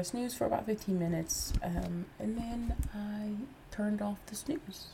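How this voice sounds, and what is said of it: Stuffy, congested voice. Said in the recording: “I'm a little stuffy. Excuse my voice.”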